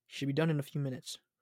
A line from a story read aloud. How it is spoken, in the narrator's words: Raven sighed